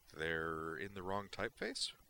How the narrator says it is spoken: the lower-ranking one said hesitantly

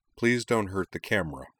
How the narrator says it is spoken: Corwin added dryly

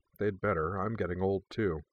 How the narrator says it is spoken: Jinora murmured

